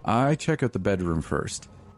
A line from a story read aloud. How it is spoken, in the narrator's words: she says